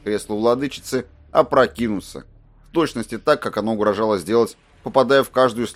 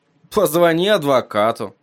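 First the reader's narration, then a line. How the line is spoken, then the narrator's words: Grumbled. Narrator (Russian): пробурчал Эдди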